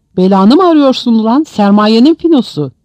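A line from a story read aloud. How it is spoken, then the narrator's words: Shouting. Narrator (Turkish): diye bağırdı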